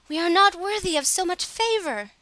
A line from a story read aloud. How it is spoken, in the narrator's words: the sisters fell down on their knees before her and cried